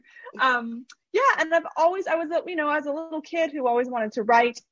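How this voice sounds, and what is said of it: Canadian accent. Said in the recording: “I'm originally from Canada, so that you, might hear my accent ... The accent won't budge”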